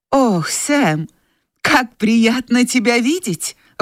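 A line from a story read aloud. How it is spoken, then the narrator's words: Exclamation. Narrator (Russian): воскликнула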